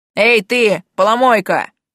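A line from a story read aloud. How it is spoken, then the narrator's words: Big man's bark. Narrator (Russian): гаркнул здоровяк на кирийском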